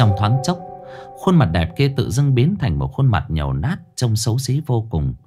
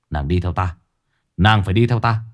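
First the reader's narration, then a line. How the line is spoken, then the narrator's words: Rough young man's voice. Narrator (Vietnamese): chàng trai nói bằng giọng thô lỗ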